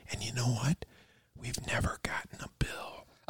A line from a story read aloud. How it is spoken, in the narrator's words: like she's trying to keep it a secret, and she says, as she whispers, she goes